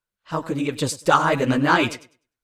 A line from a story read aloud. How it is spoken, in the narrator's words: My growl came out as more of a strained gasp